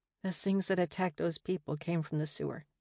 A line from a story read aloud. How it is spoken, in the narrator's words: Rather than repeat myself, I mumbled